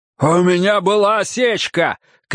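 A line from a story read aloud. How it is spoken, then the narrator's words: Shouted back. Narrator (Russian): крикнул Ройс в ответ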